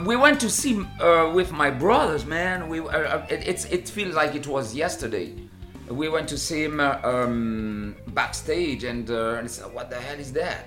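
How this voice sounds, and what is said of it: French accent. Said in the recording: “you still have a good French accent”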